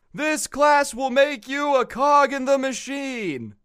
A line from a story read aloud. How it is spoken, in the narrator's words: he just keeps screaming that over and over and over